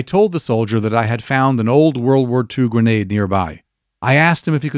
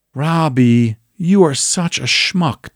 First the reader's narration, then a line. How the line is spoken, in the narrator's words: Tom whispered to me